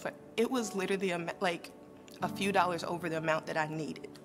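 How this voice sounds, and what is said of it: Emotional voice. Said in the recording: “I get all emotional on this”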